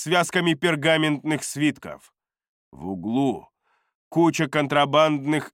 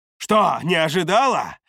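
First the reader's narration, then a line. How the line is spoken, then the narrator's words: Barked. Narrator (Russian): рявкнул я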